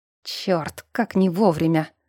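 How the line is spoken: Grumbling. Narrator (Russian): проворчал ректор

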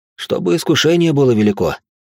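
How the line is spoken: Wry snort. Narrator (Russian): хмыкнул я

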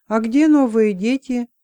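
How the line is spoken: Calm question. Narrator (Russian): спокойно спросил

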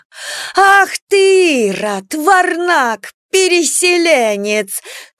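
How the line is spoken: Angry shouting. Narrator (Russian): кричала Марфа

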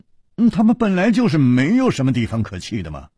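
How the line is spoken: Sighing. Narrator (Chinese): 楚留香叹了一口气说

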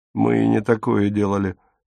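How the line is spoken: Gloomy, plan rejected. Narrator (Russian): мрачно сказал Отто, когда брат отмел его план

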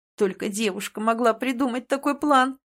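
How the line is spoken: Groaning. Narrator (Russian): простонал Рейвен

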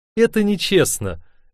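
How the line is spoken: Cheerful reproach. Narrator (Russian): весело упрекнула она

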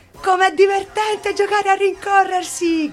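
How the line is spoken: Shouted. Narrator (Italian): gridò Pippi

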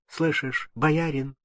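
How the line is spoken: Timid voice. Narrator (Russian): Алексей сказал робким голосом

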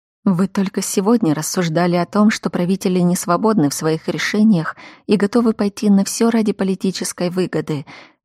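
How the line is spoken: Quiet. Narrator (Russian): тихо сказала я

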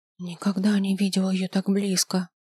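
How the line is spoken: Whisper. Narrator (Russian): прошептала она

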